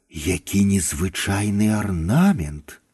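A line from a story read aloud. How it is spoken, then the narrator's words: Whispered. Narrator (Belarusian): Прашаптала Ханым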